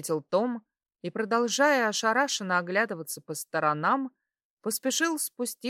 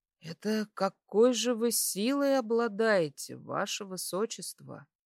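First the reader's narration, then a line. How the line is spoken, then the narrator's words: Quiet question. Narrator (Russian): тихо спросил он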